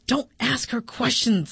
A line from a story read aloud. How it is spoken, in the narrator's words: hissed